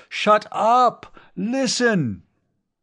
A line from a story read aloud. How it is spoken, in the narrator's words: Kurt Fawzi was pounding on the top of the desk and bellowing